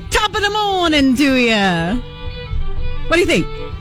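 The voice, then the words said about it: Weak Irish accent, sounds British. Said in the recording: “I think you got to work on that Irish accent for the top of the morning. You sound more British.”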